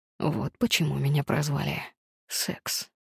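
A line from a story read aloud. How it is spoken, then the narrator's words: Hoarse rasp. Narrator (Russian): прохрипел он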